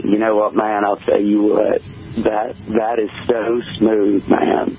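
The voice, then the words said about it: Matthew McConaughey impression. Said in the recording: “you do a wonderful Matthew McConaughey impression.”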